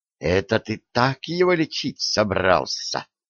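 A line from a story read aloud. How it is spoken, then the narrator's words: Young woman hissing. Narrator (Russian): прошипела девица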